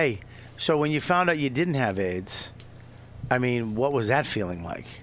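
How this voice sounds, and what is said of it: Usual voice. Nothing is said of it.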